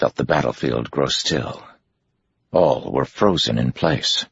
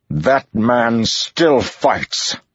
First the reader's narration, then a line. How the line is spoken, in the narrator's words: Rand shouted